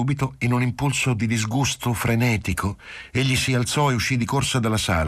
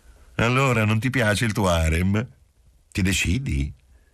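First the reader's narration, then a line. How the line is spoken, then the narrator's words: Kindly, teasing voice. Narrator (Italian): la donna disse con voce benevola e scherzosa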